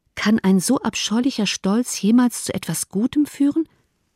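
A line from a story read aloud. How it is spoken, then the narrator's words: Plain. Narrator (German): fragte Elizabeth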